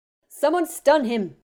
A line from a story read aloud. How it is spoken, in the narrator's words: Remus snapped